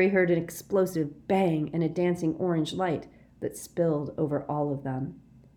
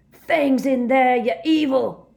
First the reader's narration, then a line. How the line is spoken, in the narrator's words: Hagrid bellowed